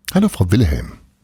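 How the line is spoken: Plain. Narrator (German): sagte Paul

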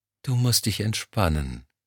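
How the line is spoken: Soft cooing. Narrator (German): säuselte sie

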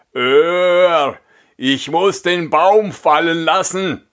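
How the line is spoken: Exhausted giant calling out. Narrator (German): Der Riese, nachdem er ein Stück Wegs die schwere Last fortgeschleppt hatte, konnte nicht weiter und rief

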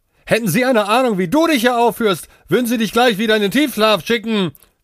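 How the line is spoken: Shouting after someone. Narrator (German): schrie Priyanka hinter ihm her

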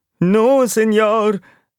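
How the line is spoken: Whimpering. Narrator (German): wimmerte die Zirkusratte

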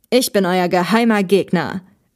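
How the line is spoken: Diabolical laughing call. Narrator (German): rief der Mann und lachte wieder höchst diabolisch

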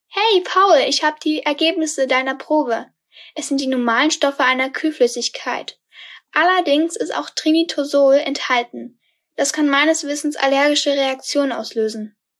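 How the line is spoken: Speaking on the phone. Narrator (German): rief Henry an

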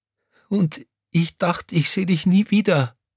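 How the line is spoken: Sobbing. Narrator (German): schluchzte Crescentia Rausch

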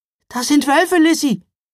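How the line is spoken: Calling out. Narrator (German): rief Mila

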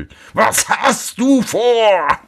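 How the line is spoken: Devil shouting. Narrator (German): schrie der Teufel

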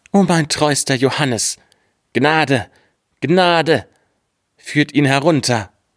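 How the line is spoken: King crying out. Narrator (German): Da rief der König

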